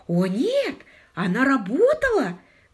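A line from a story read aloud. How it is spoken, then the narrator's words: Exclamation. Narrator (Russian): воскликнула мисс Тарант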